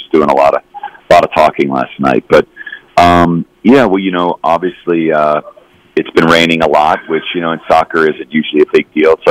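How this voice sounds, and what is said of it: Slightly hoarse voice. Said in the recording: “my voice might be a little hoarse.”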